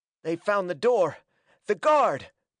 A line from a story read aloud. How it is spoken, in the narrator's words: panted Hackett